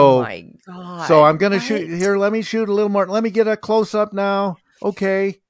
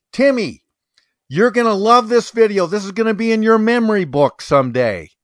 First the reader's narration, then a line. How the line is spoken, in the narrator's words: the woman justified it by saying quite loudly